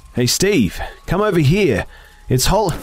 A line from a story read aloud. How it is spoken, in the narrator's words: I shouted